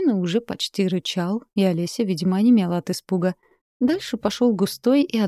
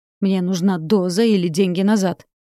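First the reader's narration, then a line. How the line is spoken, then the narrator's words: Man barking angrily. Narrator (Russian): рявкнул мужик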